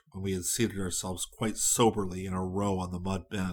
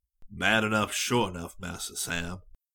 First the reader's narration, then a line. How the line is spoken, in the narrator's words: said Bryonia with a sigh